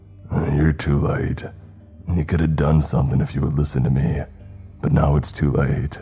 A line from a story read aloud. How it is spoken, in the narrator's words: He did not appear to be pleased to see the ranger and said in a gravelly voice